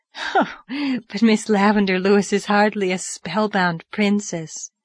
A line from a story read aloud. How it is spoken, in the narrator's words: laughed Diana